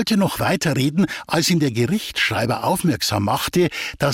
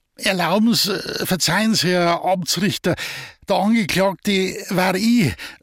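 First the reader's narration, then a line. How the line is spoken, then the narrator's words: Stammering. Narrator (German): stotterte Feichtel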